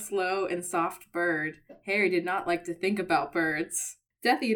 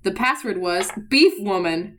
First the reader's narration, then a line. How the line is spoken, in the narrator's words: Hermione cried